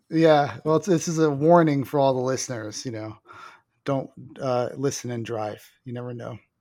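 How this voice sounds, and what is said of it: Low, sultry, under-the-weather voice. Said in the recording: “sensual voice? ... I'm just a little under the weather, so my voice is a little more sultry than usual. ... it just sounded creepy to me.”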